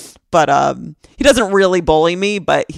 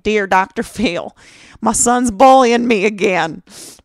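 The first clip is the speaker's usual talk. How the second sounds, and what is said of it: Put-on Southern accent. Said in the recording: “I always do like a Southern accent.”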